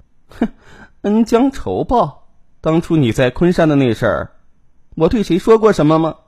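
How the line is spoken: Cold sneer. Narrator (Chinese): 陈小璐却冷笑道

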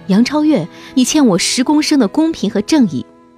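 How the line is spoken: Angry shout. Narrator (Chinese): 有人怒喊

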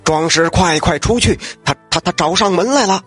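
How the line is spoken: Terrified, hurried. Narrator (Chinese): 吓得是面无人色，急忙对正在喝酒的九大侠说

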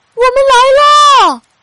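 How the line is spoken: Distant call. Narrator (Chinese): 不远处传来了小刺猬的呼喊

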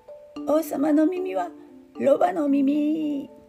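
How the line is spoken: Shouted with laughter. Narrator (Japanese): と怒鳴って笑い転げていました

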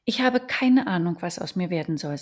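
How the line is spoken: Sighing. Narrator (German): sagte und seufzte

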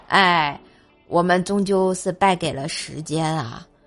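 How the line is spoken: Faintly melancholy. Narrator (Chinese): 锤锤 淡淡的忧伤啊 说

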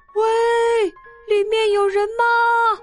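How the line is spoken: Calling into a hole. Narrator (Chinese): 小猪朝着洞里面喊

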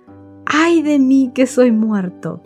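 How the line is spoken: Exclamation. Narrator (Spanish): él exclamó

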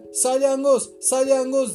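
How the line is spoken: Crying out loudly. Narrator (Turkish): diye haykırdı

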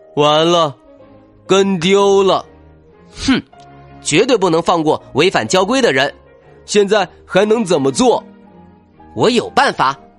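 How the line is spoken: Dejected. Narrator (Chinese): 笑天天气馁的说

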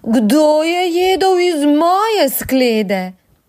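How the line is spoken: Slightly quieter roar. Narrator (Slovenian): Mama medvedka je zarjovela samo malo tiše

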